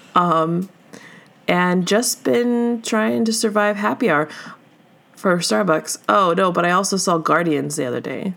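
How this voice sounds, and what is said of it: Sick-sounding voice. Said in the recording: “this week I've been sick, as you can hear in my lovely voice.”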